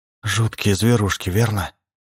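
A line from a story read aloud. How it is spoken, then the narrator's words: Trembling voice. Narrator (Russian): проговорила Карен Франклин дрогнувшим голосом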